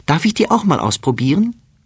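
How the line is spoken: Calling out. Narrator (German): ruft sie

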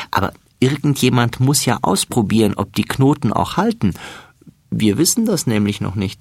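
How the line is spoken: Laughing. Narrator (German): lacht Florian

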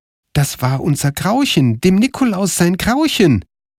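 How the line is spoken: Excited exclaiming. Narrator (German): rief Karl

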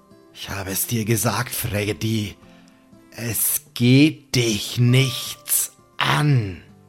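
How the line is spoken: Sonorous close murmur. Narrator (German): Sam raunt mit seiner sonoren Stimme

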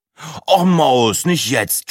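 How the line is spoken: Groaning. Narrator (German): stöhnte Breitling

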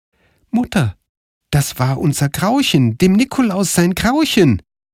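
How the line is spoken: Calling out. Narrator (German): rief Karl

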